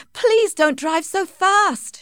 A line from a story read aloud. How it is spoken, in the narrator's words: begged